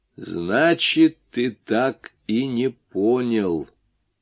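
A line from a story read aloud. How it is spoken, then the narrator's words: Slow, smug, satisfied. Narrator (Russian): проговорил он медленно, и в голосе его звучало необычайное и совершенно неуместное самодовольство и удовлетворение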